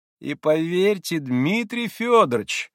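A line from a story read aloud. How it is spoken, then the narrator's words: Tender, joyful little voice. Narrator (Russian): каким-то умиленно-радостным голоском подхватил Николай Парфенович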